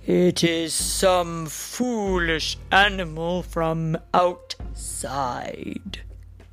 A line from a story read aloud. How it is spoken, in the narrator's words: the greatest dragon of all answered in a still deeper voice